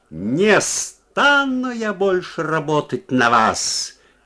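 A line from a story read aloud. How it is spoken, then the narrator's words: Loud shout. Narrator (Russian): крикнула она громко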